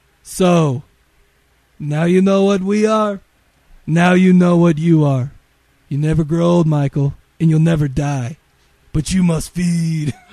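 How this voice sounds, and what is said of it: Imitates a movie character's voice. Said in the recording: “my best David impression. ... No, that was bad. ... That was good ... I was looking around for Kiefer. That was awesome.”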